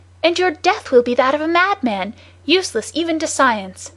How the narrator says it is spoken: he cried

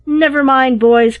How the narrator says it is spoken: cried one

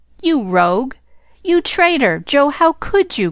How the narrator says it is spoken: cried the three girls

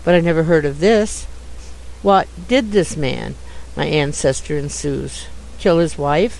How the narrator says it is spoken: murmured Jude

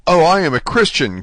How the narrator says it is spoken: cried Dante, guessing instinctively that this man meant to abandon him

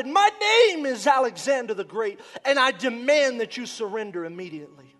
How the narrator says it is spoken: He shouted

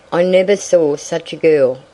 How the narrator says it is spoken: growled Ned

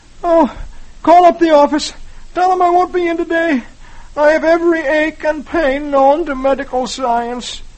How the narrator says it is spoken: Dagwood looks as if he were dying and moans

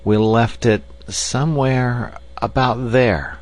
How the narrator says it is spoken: he said slowly

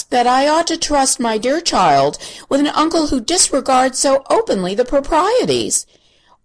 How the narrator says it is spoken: she gasped

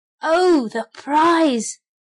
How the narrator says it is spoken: cried the shovel

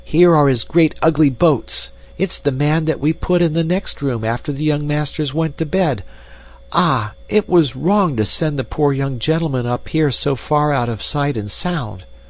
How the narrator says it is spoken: cried

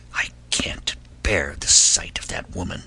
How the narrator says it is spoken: the princess whispered

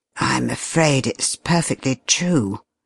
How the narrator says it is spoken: he said quietly

